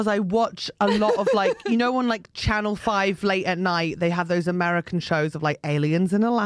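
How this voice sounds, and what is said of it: Usual voice. Nothing is said of it.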